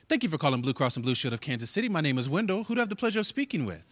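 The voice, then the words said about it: Polished formal customer-service phone voice. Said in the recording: “I can't speak how I normally speak, I have to speak correctly ... I have to code switch ... put on my phone voice.”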